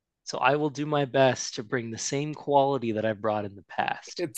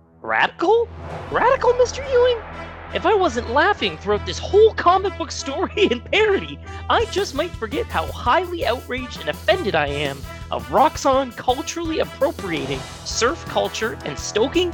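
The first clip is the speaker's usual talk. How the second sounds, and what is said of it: Impression of another person's voice. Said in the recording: “do a perfect Will Rose impression ... spot on.”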